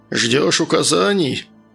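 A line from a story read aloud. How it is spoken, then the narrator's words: Joyless snort. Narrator (Russian): невесело хмыкнул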